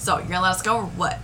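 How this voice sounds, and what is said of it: Put-on Southern US accent. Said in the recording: “I went back to a southern accent. ... Went back to a southern accent. ... I'm still southern.”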